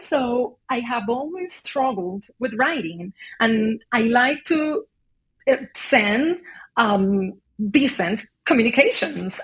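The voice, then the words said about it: Non-native English accent. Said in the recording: “I'm not a native English speaker to begin with. You can notice that by my accent”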